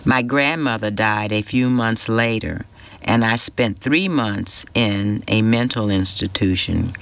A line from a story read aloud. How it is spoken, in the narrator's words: Claire said